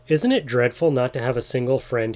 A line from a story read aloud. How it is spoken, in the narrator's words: he exclaimed